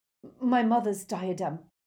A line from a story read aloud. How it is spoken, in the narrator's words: she stammered